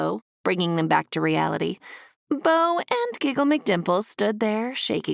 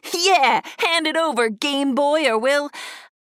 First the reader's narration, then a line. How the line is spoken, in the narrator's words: Ducky laughed and added